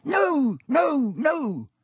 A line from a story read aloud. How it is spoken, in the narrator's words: squeaked Dobby